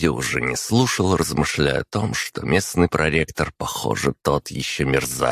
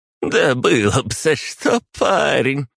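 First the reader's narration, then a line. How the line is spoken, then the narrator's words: Short laugh. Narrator (Russian): хохотнула она мне в спину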